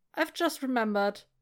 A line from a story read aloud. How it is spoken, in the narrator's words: he blurts